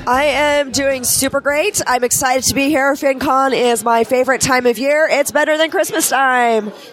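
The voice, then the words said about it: Hoarse, worn-out voice. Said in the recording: “my voice is already gone.”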